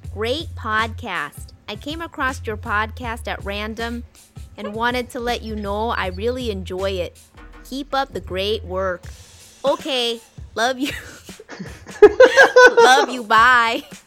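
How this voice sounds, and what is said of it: Put-on Wisconsin accent. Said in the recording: “That was my best Wisconsin accent.”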